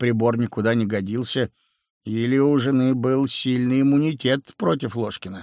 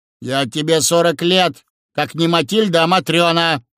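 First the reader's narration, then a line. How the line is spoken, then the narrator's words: Snapping retort. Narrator (Russian): огрызнулась жена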